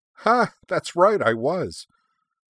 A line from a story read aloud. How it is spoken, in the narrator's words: Shirley laughed